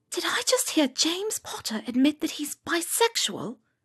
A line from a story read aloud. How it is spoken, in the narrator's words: whispered